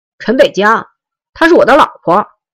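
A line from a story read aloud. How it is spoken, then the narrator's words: Loud public declaration. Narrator (Chinese): 盲流面向围观的人大声说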